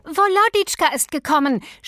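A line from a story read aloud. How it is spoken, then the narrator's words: Shouting while running in. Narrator (German): schrie Natalja ins Esszimmer hereinlaufend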